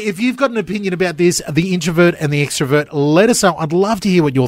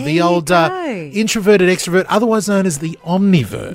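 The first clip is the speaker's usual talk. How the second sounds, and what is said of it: Posh-sounding put-on accent. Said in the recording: “I don't know why that all of a sudden sounded posh. ... It does sound a bit posh.”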